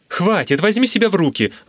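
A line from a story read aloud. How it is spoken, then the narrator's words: Exclaimed. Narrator (Russian): воскликнул Данцелот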